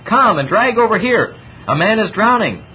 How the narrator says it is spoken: cried out in Chinese

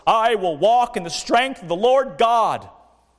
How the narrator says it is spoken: he cried out with a most vehement voice

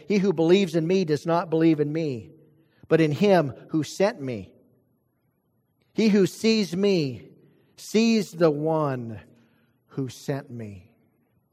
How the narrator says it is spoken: Jesus cried out and said

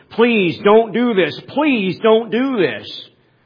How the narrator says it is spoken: the police were shouting through the bullhorn

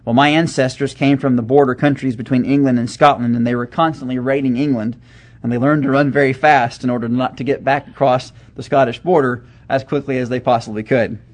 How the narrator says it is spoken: laughingly, he told them

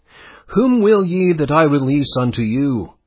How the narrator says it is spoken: exclaims Pilate

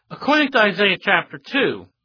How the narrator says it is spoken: the prophet exclaimed

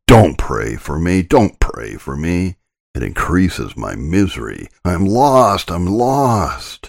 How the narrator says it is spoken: she mocked me in the most terrific manner, repeatedly exclaiming

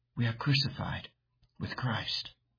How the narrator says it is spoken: as she fell asleep, she whispered

